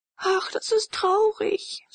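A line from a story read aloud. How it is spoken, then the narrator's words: Sighing, sobbing bitterly. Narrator (German): seufzte Leonore und schluchzte bitterlich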